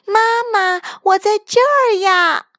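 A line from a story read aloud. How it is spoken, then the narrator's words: Loud answer. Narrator (Chinese): 大声回答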